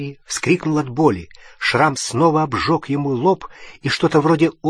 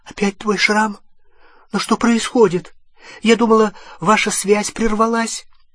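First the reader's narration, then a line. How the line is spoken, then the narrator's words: Frightened question. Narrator (Russian): Гермиона испуганным голосом спросила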